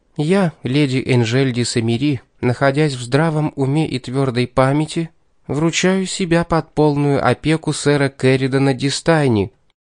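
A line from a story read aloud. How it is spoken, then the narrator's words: Ringing voice, trembling with nerves. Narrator (Russian): чуть подрагивающим от волнения звонким голоском произнесла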